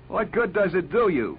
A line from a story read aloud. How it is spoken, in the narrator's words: He cried to Lesbier